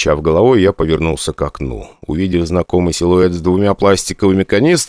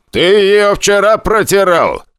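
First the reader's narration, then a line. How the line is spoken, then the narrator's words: Shouting from another room. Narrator (Russian): крикнул из кабинета капитан-моряк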